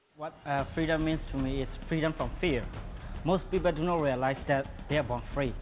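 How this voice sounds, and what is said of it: Foreign accent in English. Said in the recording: “I think from China, from Malaysia, and several countries, and you can tell by the accent”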